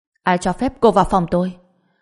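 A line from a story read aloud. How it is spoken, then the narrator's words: Angry through gritted teeth. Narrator (Vietnamese): mắt đỏ ngầu tức giận nghiến răng nói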